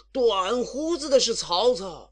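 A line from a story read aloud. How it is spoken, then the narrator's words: Shouting again. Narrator (Chinese): 西凉兵又叫道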